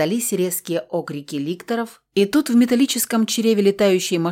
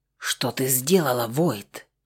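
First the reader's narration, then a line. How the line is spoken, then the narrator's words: Angry hissing whisper. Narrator (Russian): Злобно зашипел он мне на ухо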